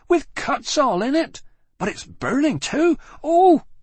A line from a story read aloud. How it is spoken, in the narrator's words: she screamed again, opening her mouth wide at last